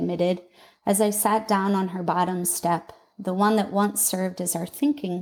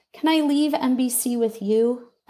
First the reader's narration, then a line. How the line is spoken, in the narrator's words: pleaded, desperate to be free from it